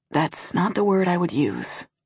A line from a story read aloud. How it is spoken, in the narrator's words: he whispers